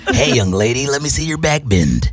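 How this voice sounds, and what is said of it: Creepy put-on voice. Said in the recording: “Ew, you sound like Joe Budden's creepy voice.”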